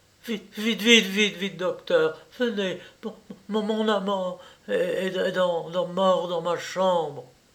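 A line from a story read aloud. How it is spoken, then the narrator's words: Stammering woman. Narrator (French): elle balbutia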